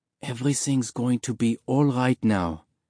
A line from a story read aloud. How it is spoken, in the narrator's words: she whispered